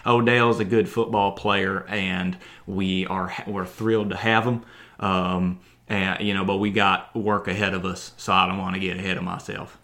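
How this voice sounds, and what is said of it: Exaggerated deep Southern US accent. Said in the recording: “my Freddie Kitchens impression is really, really bad ... I get very deep south, like, I think. That is super deep. That's deeper than Gadsden, Alabama ... That's too deep”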